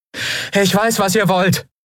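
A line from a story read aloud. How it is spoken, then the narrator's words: Calling out into distance. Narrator (German): rief Andriel in den Wald hinein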